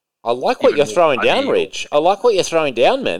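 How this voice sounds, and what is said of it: Put-on accent. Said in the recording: “For some reason, I'm doing an accent.”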